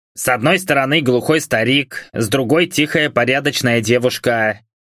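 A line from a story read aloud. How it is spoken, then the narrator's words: Impatient grumble. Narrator (Russian): проворчал управляющий, теряя терпение от чрезмерно привередливого квартиранта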